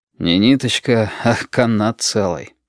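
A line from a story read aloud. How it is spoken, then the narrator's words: Sighing. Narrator (Russian): вздохнул Валентин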